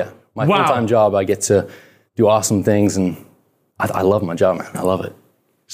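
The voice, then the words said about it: Convincing put-on British English accent. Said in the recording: “utilize more of the British accent... You're not American?... I talk in an English accent when I'm in England... That is ridiculously good.”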